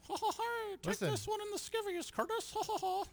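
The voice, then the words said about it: Mickey Mouse cartoon voice. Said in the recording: “That was my Mickey Mouse impression... That was Mickey on performance enhancing drugs.”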